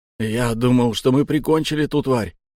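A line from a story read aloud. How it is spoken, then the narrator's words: Exhaling. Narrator (Russian): выдохнул три гвоздя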